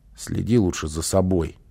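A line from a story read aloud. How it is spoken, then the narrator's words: Child snapping back. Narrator (Russian): огрызнулся малыш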